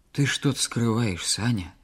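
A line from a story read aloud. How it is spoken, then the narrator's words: Quiet. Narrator (Russian): тихо проговорила Клава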